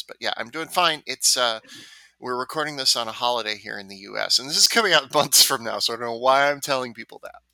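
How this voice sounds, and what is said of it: Hoarse voice from a cold. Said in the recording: “I have a little bit of a cold, so I'm sorry if my voice sounds a little hoarse”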